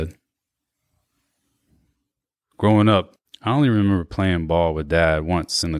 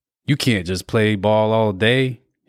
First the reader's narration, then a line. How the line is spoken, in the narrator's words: he'd said